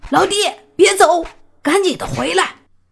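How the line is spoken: Anxious shout. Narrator (Chinese): 黑狗灵官急了，急忙大喊

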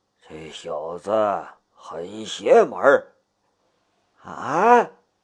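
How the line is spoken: Lowered voice. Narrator (Chinese): 唐天龙压低了声音

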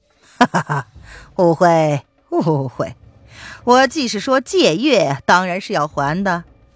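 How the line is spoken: Laughing. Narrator (Chinese): 范定峰笑着说

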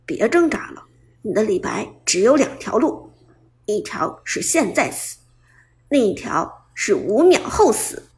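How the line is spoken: Soft, cold muttering. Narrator (Chinese): 冷笑，轻声自言自语道

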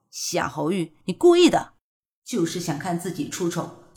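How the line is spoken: Through gritted teeth. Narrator (Chinese): 古欣欣咬牙切齿地说

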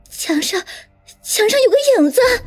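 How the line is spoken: Trembling frightened cry. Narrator (Chinese): 王倩却啊的一声惊叫起来，声音颤抖道

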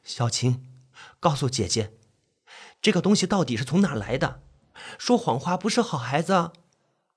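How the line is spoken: Tense voice. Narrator (Chinese): 党小爱……声音发紧

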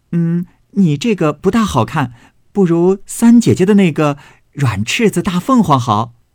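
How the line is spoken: Laughing. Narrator (Chinese): 宝琴笑道

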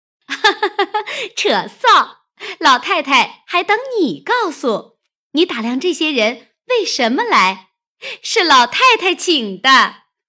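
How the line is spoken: Laughing. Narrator (Chinese): 湘云笑道

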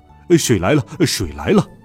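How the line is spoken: Laughing. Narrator (Chinese): 沙和尚笑道

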